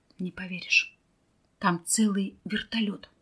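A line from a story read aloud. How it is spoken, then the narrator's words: Whisper. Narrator (Russian): Михаил прошептал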